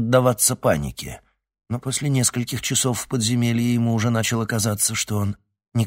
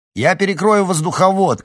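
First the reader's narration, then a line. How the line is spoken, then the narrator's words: Shouted. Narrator (Russian): крикнул он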